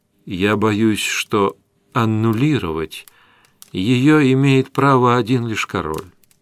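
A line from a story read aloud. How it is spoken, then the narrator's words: Gentle speech. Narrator (Russian): мягко сказал он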